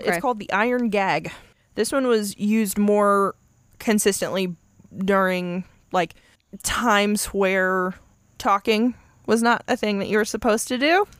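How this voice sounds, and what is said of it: Stuttering, uncomfortable speech. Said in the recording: “you can tell I'm uncomfortable because I'm stuttering.”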